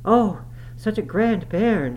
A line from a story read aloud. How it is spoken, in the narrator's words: she panted out